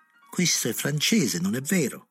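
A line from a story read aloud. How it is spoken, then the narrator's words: Knowing wink exclamation. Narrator (Italian): esclamò strizzando l'occhio come a dire che non cercasse di ingannarlo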